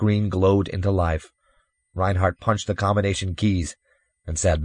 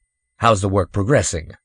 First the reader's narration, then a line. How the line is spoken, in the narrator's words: Reinhardt broke in coldly